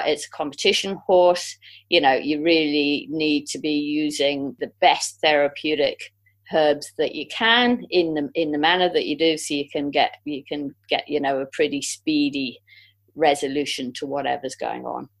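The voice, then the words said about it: English accent. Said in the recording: “you seem to have an English accent.”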